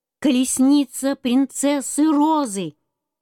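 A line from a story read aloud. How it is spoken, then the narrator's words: Ringing shout from page boy. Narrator (Russian): маленький пажик крикнул звонким голоском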